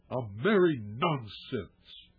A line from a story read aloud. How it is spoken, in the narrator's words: he snarled, biting the words off short